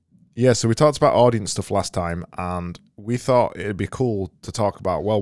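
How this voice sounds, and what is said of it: Strained, worn-out voice. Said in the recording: “I'm losing my voice today as well ... I've got no voice left.”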